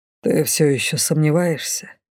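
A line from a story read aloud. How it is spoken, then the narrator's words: Quiet question. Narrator (Russian): тихо спросил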